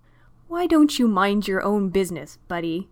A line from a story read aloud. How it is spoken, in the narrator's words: Neil said tightly